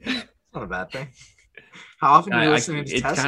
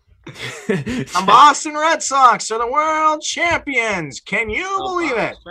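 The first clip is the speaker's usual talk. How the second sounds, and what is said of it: Imitates another person's voice. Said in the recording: “your best Joe Castiglione impression ... That impression.”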